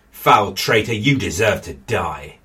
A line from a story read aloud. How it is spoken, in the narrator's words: John snarled